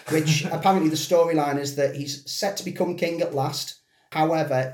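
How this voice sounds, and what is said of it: Usual voice. Nothing is said of it.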